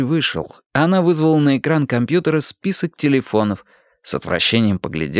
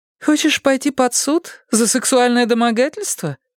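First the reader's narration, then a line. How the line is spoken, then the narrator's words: Smug laughter. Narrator (Russian): Игорь рассмеялся, довольный собой до нельзя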